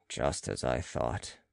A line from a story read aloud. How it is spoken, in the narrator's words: muttered Balsamo